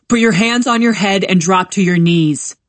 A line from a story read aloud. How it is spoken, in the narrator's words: A deep voice shouts